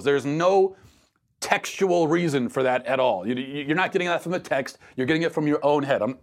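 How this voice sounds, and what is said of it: Yelling, loud emphatic voice. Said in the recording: “I'm not yelling at you, Michael, ... I'm just yelling at everyone who makes this claim”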